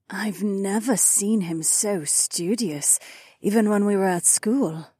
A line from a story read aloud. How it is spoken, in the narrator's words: Anwar mused with a fond note in her placid voice